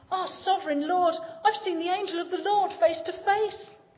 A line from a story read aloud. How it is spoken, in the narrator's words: Gideon exclaimed